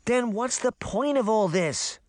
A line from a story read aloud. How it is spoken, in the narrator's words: Daphne cried